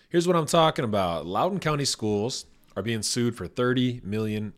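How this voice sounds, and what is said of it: Slightly scratchy voice. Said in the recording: “My voice is a little scratchy.”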